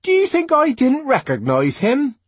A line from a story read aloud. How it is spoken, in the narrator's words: Linda asked indignantly